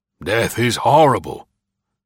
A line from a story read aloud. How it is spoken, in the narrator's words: drew a long, deep breath, shuddered as one awakened from a dreadful dream, and exclaimed almost inaudibly